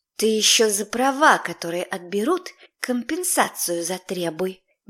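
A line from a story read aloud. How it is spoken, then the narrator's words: Displeased hiss. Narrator (Russian): Недовольно прошипела Илона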